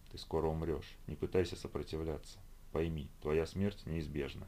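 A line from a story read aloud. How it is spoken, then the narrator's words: Monotone whisper. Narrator (Russian): нашептывал чей-то монотонный голос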